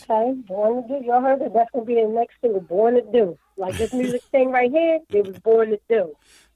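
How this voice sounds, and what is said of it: Philadelphia accent. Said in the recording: “I hear the accent ... that Philly swag”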